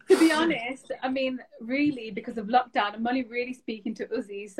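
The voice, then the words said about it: Thick Brummie accent. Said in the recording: “I always forget how thick of an accent you have. ... Is that Brummie accent?”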